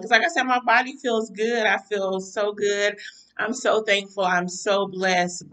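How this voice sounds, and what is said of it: Tired, weary-sounding voice. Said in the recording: “mentally, I am weary, and my voice is reflective of probably how I'm feeling”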